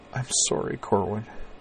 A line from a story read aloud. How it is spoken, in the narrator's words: she said softly, in a tone of raw and complete misery